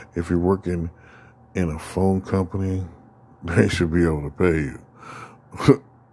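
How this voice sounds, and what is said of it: Speaking with laughter in voice. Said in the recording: “you hear the laughter in my voice when I said they should be able to pay you.”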